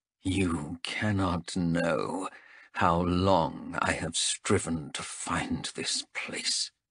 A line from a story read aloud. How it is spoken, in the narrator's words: he muttered